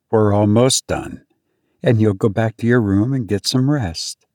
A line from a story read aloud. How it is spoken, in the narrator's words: She just calmly said